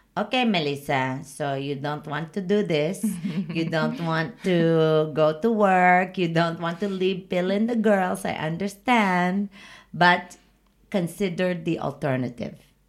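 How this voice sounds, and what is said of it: Put-on Filipino accent. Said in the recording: “I'm going to do it in my Filipino accent.”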